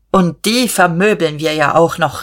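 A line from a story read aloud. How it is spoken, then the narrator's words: Called out. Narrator (German): rief Dieterich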